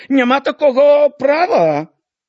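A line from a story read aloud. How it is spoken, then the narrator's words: Woman shouting. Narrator (Belarusian): хтосьці з жанок, здаецца, чарнушчыха крыкнула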